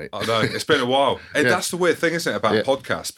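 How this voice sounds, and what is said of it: Northern Hebridean Scottish accent. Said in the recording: “Northern Hebridean accent from Scotland”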